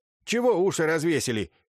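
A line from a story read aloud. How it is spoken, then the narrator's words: Sharp shout. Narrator (Russian): прикрикнула Северская на слуг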